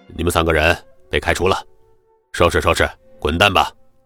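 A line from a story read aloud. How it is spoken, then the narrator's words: Stern cold voice. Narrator (Chinese): 姚东旭威严的，冷声说道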